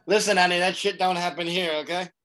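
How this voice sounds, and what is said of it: Put-on New Jersey accent. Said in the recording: “In your New Jersey accent.”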